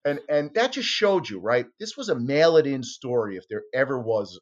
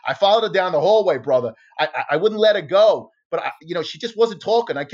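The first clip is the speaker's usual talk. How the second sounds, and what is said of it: Put-on Boston accent. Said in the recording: “he talked to this Boston accent.”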